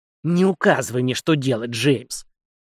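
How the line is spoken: Snorting old woman. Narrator (Russian): фыркнула старуха

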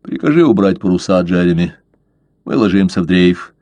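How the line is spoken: Calm. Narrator (Russian): Блад сказал спокойно

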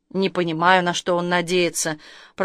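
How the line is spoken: Grumbling. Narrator (Russian): проворчал Павел

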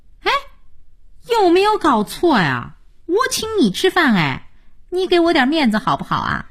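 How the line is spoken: Silly laughing. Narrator (Chinese): 佳音傻笑着说

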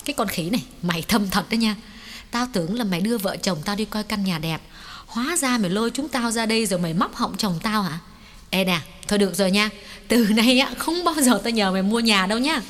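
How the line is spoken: Smiling scolding. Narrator (Vietnamese): Mỹ Khanh mỉm cười rồi quay sang mắng Hoài

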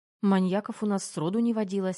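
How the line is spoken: Plain. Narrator (Russian): ответила я

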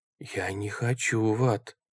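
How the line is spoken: Whisper. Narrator (Russian): прошептал Джереми

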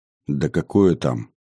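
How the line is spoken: Dismissive, heavy sigh. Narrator (Russian): отмахнулся он, тяжело вздохнув

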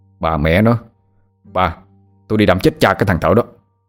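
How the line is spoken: Angry shout. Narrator (Vietnamese): Tâm quát lên

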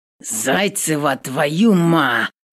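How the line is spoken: Growling, breaking off. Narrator (Russian): Начинает рычать и осекается

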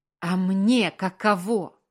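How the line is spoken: Curt remark. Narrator (Russian): бросил он

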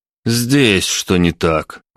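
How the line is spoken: Sighing. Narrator (Russian): вздохнул

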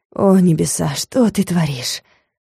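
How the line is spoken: Breathless exhale. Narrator (Russian): выдохнул магистр

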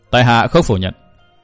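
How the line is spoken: Cold. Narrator (Vietnamese): Chu Sương lạnh lùng đáp

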